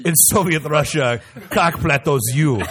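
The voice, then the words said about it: Put-on Russian accent. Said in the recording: “Say that in a Russian accent.”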